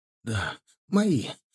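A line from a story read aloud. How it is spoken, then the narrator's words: Hoarse wheeze. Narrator (Russian): прохрипел он в ответ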